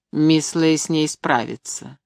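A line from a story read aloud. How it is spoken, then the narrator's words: Cold. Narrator (Russian): холодно сказал Конан Тремелин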